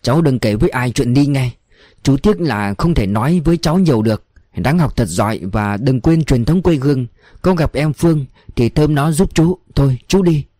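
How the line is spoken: Soft instruction, man. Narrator (Vietnamese): Chú Bồn dặn khẽ

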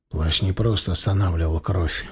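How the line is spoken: Flat toneless voice. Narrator (Russian): бесцветным голосом сообщил Стас

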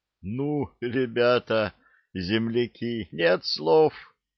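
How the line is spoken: Happy breathless exhale. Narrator (Russian): Наконец выдохнул счастливый обладатель всей этой роскоши

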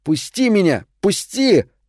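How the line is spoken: Exhausted shouting. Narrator (Russian): Лейси кричал, но сил для борьбы у него не осталось

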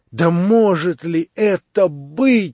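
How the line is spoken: Sudden deeply reproachful cry. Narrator (Russian): вскрикнул вдруг князь с глубоким сердечным укором

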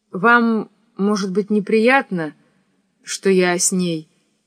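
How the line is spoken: Plain. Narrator (Russian): спросила она

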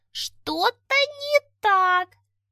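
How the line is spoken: Anxious squeak. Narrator (Russian): пропищал он тревожно

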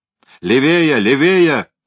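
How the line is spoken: Shouted after them. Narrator (Russian): крикнул им вслед Бек

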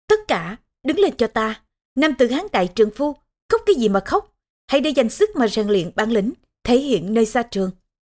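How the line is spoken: Loud stern shout. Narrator (Vietnamese): Bàn Quyền ... quát lớn

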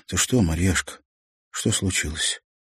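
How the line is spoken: Weak voice. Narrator (Russian): Олег спросил слабым голосом

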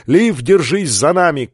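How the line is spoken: Shout. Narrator (Russian): крикнул он

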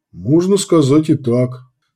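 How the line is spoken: Calm reply. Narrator (Russian): спокойно отозвался Люд

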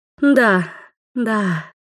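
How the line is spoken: Woman's purr. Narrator (Russian): мурлыкнул женский голос

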